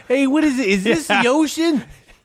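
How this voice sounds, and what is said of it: Put-on New Jersey accent. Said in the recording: “you got to do the accent ... I don't think I could do a Jersey accent.”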